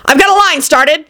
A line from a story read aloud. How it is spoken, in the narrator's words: Angel yelled triumphantly from the floor